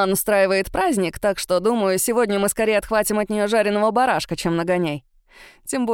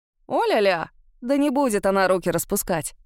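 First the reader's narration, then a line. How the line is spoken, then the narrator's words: Snorting. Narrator (Russian): хмыкнул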